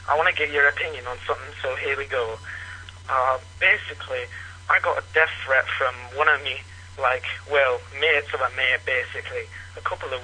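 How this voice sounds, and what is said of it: Unusual regional English accent. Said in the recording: “Where the hell does that accent come from? ... He says England, but I've never heard anything like it. ... like a Scottish guy with a lisp ... I've never heard that accent before. ... there's a lot of eh, from England.”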